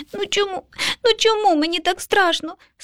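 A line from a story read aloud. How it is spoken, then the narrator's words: Sobbing child. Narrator (Ukrainian): схлипнув малюк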